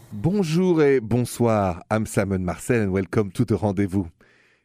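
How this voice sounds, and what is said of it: Thick French accent. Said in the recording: “I'm French, if you haven't noticed the French accent. Pretty thick, right? ... that very thick French accent”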